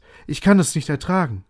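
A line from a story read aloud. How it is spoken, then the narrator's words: Exclamation. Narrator (German): rief Scrooge aus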